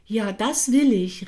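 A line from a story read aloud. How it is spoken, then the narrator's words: Calling after. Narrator (German): rief Manja hinterher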